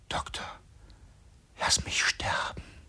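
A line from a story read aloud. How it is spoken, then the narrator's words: Boy whispering in ear. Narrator (German): Mit leeren Augen, ohne Hemd, hebt sich der Junge unter dem Federbett, hängt sich an meinen Hals, flüstert mir ins Ohr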